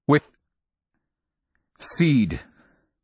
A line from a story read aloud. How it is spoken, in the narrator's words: his voice broke upon this word